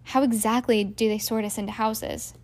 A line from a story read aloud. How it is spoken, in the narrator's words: he asked Ron